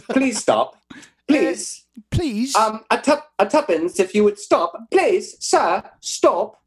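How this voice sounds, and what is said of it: Put-on proper British accent. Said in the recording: “You do British accents ... You're the proper one ... Not good”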